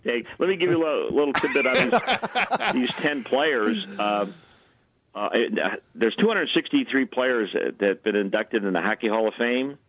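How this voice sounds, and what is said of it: Good radio voice. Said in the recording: “You've got a good radio voice.”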